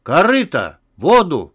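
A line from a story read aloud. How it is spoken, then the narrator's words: Loud shout. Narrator (Russian): громко крикнул Лариса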